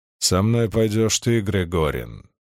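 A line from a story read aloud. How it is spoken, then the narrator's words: Firm, less angry. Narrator (Russian): продолжил он уже не столь гневным, но тем не менее твердым голосом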